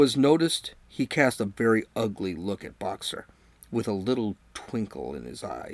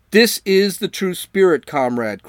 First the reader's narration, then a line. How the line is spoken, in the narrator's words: cried Squealer